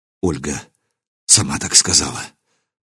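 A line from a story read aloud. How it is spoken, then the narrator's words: Soundless lip whisper. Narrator (Russian): прошептал я одними губами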